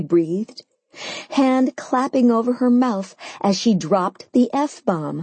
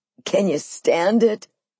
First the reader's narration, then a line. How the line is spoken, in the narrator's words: He laughed